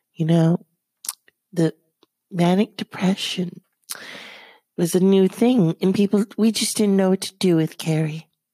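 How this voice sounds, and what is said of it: Imitates another person's voice. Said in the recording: “it's hard to do an impression of Debbie Reynolds ... that's my impression.”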